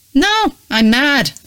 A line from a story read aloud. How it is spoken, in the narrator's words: Susan shouted back